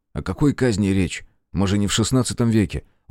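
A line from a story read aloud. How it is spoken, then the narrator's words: Soothing tone. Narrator (Russian): успокаивающим тоном произнес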